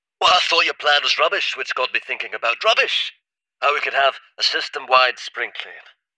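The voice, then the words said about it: Cheeky, authoritative voice with an accent. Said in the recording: “had a cheeky but authoritative tone and an accent that Draxel couldn't quite place”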